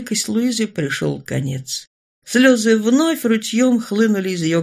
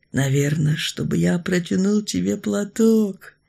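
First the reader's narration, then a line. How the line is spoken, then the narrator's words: Tender explanation. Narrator (Russian): ласково объяснил жених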